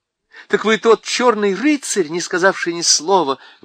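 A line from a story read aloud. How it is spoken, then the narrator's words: Exclaiming. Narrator (Russian): воскликнула Джил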